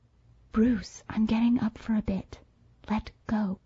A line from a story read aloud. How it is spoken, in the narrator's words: I whispered towards his ear